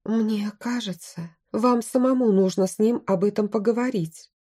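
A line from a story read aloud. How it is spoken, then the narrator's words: Soft advice. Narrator (Russian): мягко посоветовала я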